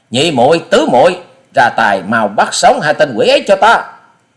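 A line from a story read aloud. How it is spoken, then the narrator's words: Angry female shout. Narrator (Vietnamese): Thiếu nữ áo xanh giận dữ quát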